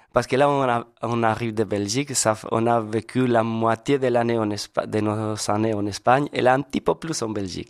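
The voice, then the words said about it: Spanish accent in French. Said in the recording (French): “vous êtes espagnol? ... C'est ça votre accent.”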